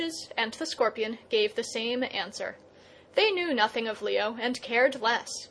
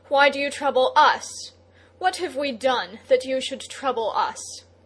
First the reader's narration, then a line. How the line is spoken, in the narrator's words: against his will Leo cried